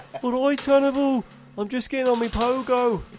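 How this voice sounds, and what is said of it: Put-on Brummie accent. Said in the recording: “has got a Brummy accent.”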